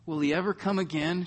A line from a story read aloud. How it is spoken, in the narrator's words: sobbed